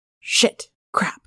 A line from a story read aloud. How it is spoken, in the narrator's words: hissed